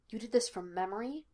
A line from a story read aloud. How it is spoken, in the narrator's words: Lassiter asked quietly, with something like disbelief